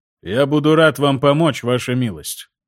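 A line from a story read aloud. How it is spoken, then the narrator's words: Calm reply. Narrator (Russian): как всегда спокойно ответил Страйкер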